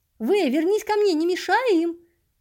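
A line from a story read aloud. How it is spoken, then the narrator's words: Shout. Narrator (Russian): крикнул с места Эд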